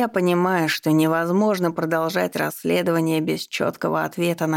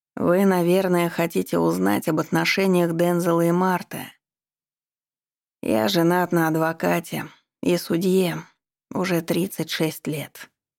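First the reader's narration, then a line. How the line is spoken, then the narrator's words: Heavy sigh. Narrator (Russian): добавил Янг, тяжело вздохнув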